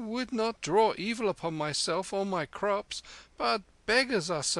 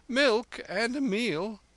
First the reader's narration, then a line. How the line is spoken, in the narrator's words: the man stammered